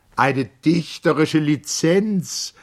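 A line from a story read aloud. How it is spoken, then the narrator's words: Called out. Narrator (German): rief Mager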